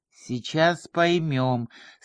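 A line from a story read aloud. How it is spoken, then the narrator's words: Through gritted teeth. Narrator (Russian): сквозь зубы сказал дежурный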